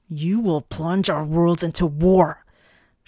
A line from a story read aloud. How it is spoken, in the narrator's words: Shallot shouted